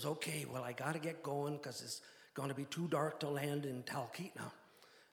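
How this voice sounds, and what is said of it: Exaggerated Midwestern accent. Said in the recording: “He had kind of a exaggerated Midwestern accent.”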